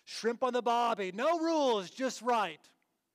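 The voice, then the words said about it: Put-on Australian accent. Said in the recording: “with a Australian accent”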